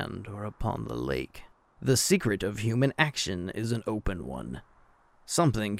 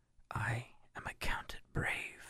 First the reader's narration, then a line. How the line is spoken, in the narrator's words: he murmured